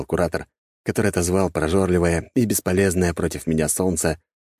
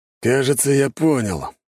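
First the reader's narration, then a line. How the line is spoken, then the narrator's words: Knowing snort. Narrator (Russian): хмыкнул мужик с хлыстом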